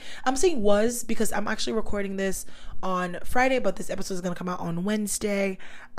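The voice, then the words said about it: Slightly raspy voice. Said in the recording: “my voice is still a little bit raspy”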